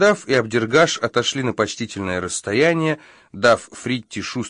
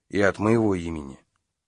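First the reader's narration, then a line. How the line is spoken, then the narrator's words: Quiet. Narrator (Russian): тихо сказал хвост с трубой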